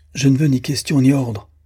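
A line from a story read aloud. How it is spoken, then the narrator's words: Trembling, frightened exclamation. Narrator (French): s'écria-t-il, saisi d'un tremblement violent et comme effrayé de son propre courage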